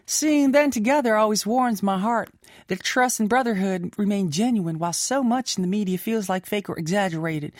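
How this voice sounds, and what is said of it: Slight put-on Southern accent. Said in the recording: “I gave you like a slight southern accent.”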